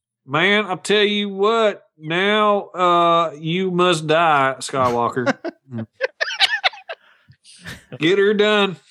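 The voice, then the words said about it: Emperor impression in Southern accent. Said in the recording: “I want to hear a Southern Emperor.”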